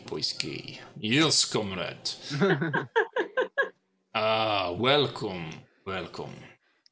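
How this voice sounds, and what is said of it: Dodgy put-on Russian accent. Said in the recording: “It was dodgy Russian, wasn't it? ... Dodgiest of Russian.”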